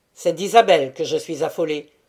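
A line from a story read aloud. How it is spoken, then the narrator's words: Curt, decisive tone. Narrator (French): fit d'un petit ton sec qu'il savait prendre admirablement et qui tranchait tout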